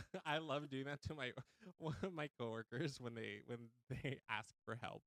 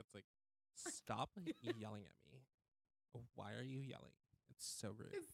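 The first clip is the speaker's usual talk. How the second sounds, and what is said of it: Valley Girl accent. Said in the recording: “You have to do that with the Valley Girl accent too.”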